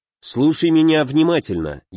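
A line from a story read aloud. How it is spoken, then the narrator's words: Fairly calm tone. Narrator (Russian): я говорил довольно спокойным тоном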